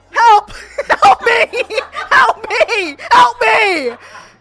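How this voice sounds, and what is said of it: Yelling for help. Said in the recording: “you're yelling ... You're screaming help me”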